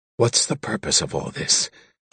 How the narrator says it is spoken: Kalexel whispered

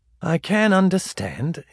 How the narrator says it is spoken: said rather wearily

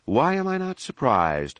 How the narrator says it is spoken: Leia asked, and she blew a sigh

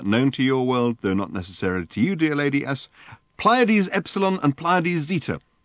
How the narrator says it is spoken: concluded Ford triumphantly

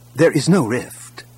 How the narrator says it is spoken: Kip said firmly

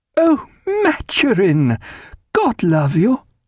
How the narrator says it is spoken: cried

